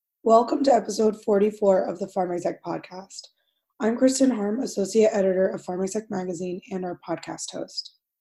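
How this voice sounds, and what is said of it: Sick, congested-sounding voice. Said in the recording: “tell from my voice, it's cold and flu season again”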